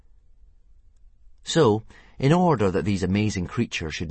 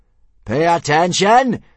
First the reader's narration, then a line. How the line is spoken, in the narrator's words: screamed Gobber the Belch, the soldier in charge of teaching initiation